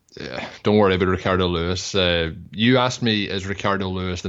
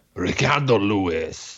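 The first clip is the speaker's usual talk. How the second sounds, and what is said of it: Put-on Spanish accent. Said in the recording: “Can you do a Spanish accent? ... your Spanish is better than your English.”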